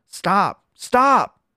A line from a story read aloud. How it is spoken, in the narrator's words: the needle cried out